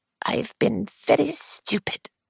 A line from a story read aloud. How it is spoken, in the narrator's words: she murmured